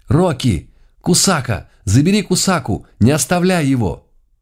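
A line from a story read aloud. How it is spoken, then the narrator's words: Sudden cry. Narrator (Russian): Няша неожиданно вскрикнула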